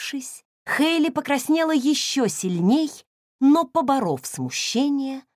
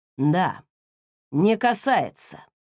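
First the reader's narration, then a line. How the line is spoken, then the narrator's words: Hoarse after long silence. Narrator (Russian): после долгого молчания каким-то охрипшим голосом произнес, наконец, Уилл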